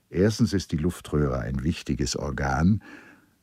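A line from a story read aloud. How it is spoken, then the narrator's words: Gentle. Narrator (German): Müller sanft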